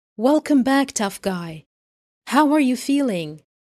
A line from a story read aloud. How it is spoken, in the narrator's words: his father says